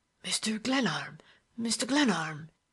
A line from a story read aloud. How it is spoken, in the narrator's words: he exclaimed in broken whispers